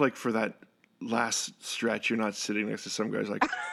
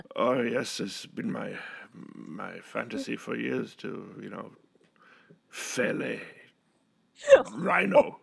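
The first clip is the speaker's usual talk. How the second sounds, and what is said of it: Put-on unidentifiable accent. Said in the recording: “I don't even know what voice I'm doing ... I'm not sure what accent that is exactly”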